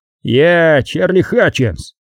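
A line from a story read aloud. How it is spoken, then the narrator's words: Barked. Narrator (Russian): рявкнул он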